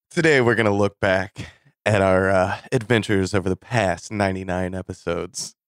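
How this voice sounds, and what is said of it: Smooth public-radio announcer voice. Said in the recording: “I like you got this NPR voice going. ... the smooth voices”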